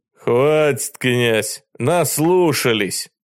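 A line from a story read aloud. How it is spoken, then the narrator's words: Bark. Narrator (Russian): рявкнул он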